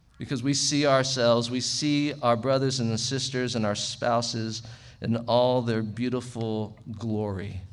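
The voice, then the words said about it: Sarcastic tone. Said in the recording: “I say that sarcastically”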